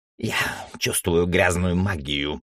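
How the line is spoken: Dry, croaking old voice. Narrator (Russian): произнес старик своим сухим, каркающим голосом

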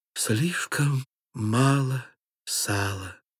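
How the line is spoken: Barely audible babble. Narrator (Russian): Он пролепетал едва слышно

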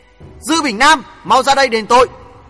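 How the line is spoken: Angry yell. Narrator (Vietnamese): Hoàng Thượng Chí nổi giận hét

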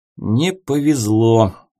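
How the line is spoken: Gloomy remark. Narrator (Russian): мрачно заметил Ярик

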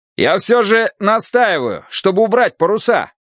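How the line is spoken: Shouted again. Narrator (Russian): опять крикнул Смолянцев

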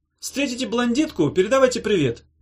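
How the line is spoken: Loud. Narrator (Russian): громко сказала Ната

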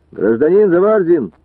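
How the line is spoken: Calling out again. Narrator (Russian): еще раз выкрикнул участковый Пилипенко

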